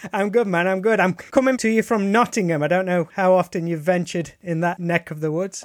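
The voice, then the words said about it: Common English accent. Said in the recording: “your accent sucks... Mine just sounds like some horrible common English accent.”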